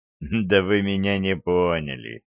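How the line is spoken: Laughing. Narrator (Russian): Дюк рассмеялся

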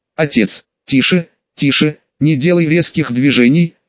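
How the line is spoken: Soft, gentle. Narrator (Russian): мягко произнес мастер Ирон

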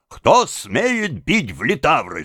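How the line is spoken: Shouted. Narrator (Russian): закричал он

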